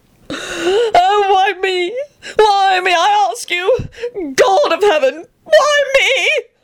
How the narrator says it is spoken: shrieked the sobbing man behind them

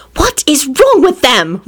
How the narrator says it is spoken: Rosie snapped at Elizabeth

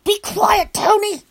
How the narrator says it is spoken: I hissed

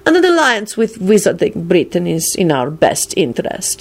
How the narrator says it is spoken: he added scornfully

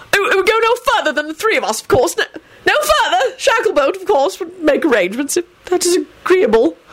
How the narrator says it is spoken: Fudge stammered out frantically

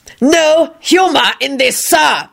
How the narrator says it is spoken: the doctor screeched, his patience apparently gone

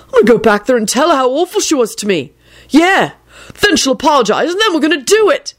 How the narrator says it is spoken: he declared triumphantly

